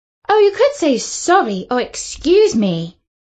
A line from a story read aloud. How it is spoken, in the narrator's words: exclaimed Katie